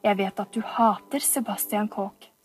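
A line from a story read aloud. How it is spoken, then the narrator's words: Low voice. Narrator (Norwegian): sa han med lav stemme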